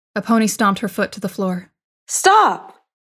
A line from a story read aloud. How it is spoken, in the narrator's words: She cried